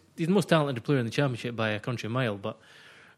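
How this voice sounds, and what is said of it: Scottish accent. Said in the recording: “I'm a Scotsman. You'll hear that by my voice.”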